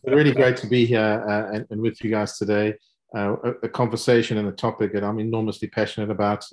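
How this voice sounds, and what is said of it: South African accent. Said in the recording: “As you can hear from my accent, um, clearly South African”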